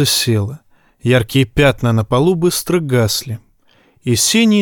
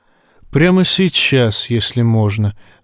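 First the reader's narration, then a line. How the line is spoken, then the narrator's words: Gentle urging. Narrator (Russian): мягко поторопил принц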